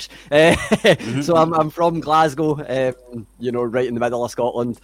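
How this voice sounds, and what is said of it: Scottish accent. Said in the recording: “people can hear my voice, they can hear my accent. I'm pretty Scottish.”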